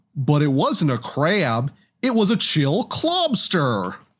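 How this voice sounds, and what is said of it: Exaggerated goofy cartoon character voice. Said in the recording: “I can't really do the B-52's guy voice very well. I'm sorry. ... You sounded like Goofy. Do it in a more Goofy voice.”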